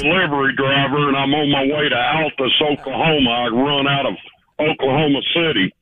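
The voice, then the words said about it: Man speaking with an accent. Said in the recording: “I love his accent.”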